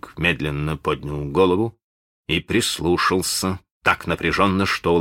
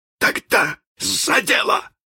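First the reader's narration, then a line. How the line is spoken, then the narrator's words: Grinning exclamation. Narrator (Russian): вскрикнул он, осклабившись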